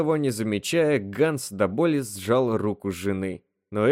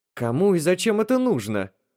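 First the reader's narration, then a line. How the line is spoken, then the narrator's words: Exclaimed. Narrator (Russian): воскликнула Элис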